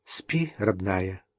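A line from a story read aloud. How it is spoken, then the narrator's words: Quiet. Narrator (Russian): тихо сказал Адам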